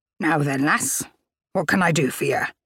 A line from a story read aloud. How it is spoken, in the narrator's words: she rasped